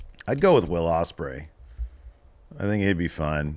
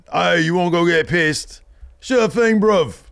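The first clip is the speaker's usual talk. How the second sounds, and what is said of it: Imitates another person's accent. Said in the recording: “why are you talking in my accent?”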